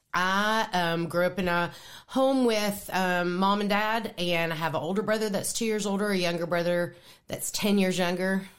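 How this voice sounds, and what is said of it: East Tennessee Southern twang. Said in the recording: “I am originally from East Tennessee, and I'm sure that everybody listening to this podcast will hear a little twang in my voice ... most of the time after I've talked to her, it's my accent's worse than it usually is”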